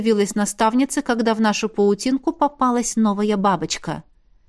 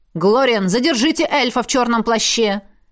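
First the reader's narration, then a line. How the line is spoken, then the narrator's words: Sharp bark. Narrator (Russian): рявкнул Диэр Ривейра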